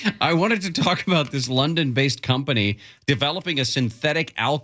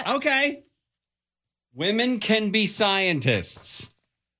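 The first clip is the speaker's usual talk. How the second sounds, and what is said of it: Yelling. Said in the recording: “Why are you yelling?”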